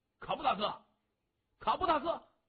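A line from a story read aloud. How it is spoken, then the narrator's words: Repeated calling. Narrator (Chinese): 后边有人连声的呼喊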